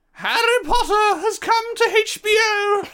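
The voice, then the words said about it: Dobby-like character voice. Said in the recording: “that your Dobby impression? ... No, I don't know what Dobby it was. It was like... I don't know what it was. Like halfway between ... Snape.”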